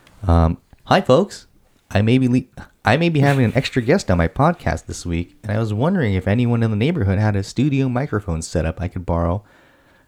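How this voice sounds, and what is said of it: Put-on neighborly character voice. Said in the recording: “read it in my my neighbor voice.”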